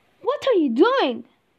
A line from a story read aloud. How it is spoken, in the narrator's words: the Scarecrow shouts